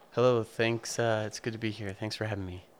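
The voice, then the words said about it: Soft-spoken radio announcer voice. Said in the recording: “I like your soft-spoken radio voice. ... Yes, I put it on just for you.”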